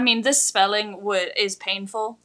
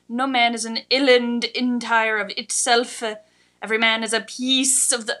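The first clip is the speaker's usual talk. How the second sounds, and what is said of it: Put-on Scottish accent. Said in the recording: “Your old English takes on a very Scottish accent.”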